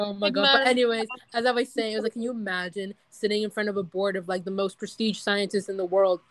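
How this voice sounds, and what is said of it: Usual voice. Nothing is said of it.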